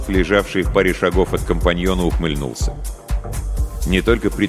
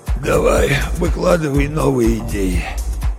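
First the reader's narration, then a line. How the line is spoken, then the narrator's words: Hoarse rasp. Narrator (Russian): прохрипел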